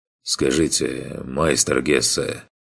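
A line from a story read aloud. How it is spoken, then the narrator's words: Quiet question. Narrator (Russian): спросил он, наконец, тихо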